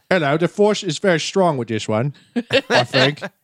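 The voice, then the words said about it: Imitates another person's voice, Cockney. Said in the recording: “real Cockney accent ... You're just doing a Michael Caine impression.”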